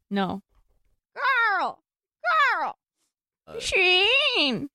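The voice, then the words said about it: Cartoon character voice impression. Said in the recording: “very good Miss Fowl impression ... Ooh, that was good.”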